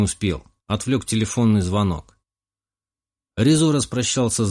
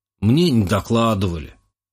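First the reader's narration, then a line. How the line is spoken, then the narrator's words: Snorting. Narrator (Russian): хмыкнул Резо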